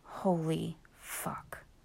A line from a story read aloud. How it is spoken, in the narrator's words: he whispered